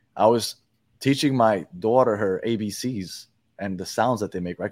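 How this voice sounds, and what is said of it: Speaks with a noticeable accent. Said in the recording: “your accent really came out when you said often ... my accent is is a, is is a curse sometimes”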